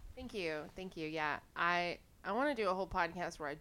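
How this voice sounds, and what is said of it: Usual voice. Nothing is said of it.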